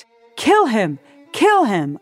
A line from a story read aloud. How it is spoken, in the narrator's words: a man shouted